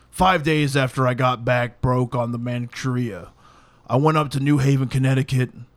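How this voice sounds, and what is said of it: Gruff, gravelly imitated voice. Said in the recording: “do a Panzram voice ... he's got that Clint Eastwood fucking gruff about him ... I'm doing Panzram”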